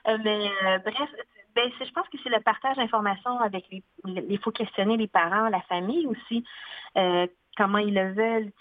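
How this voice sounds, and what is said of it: Strong regional Quebec French accent. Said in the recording (French): “accent très joual et très régionaliste”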